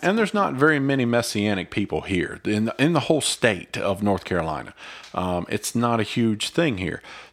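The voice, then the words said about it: Mild Southern US accent. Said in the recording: “if you don't know North Carolina, you can tell by our accents, this is kind of a southern state ... not deep southern. No, not deep southern, but enough.”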